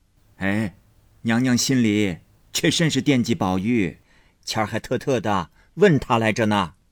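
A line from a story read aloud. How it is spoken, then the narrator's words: Laughing old woman. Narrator (Chinese): 贾母和贾政笑道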